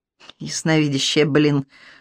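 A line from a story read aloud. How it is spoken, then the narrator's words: Muttered through teeth. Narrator (Russian): сквозь зубы процедил Сергей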